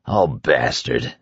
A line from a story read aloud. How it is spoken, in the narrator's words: the judge murmured